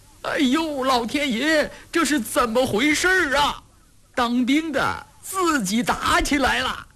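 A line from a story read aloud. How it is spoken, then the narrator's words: Strange shrieking. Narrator (Chinese): 有的在怪叫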